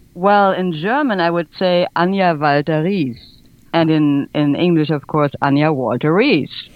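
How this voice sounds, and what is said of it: Foreign accent. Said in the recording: “you have an accent”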